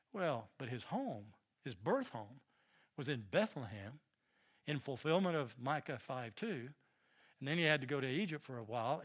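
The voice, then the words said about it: Southern American accent. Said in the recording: “They'd pick up on my southern accent in a moment.”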